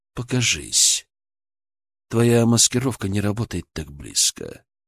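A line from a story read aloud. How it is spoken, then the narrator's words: Calm. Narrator (Russian): спокойно сказал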